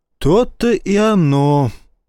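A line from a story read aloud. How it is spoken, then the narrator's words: Sighing. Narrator (Russian): вздохнул Старпом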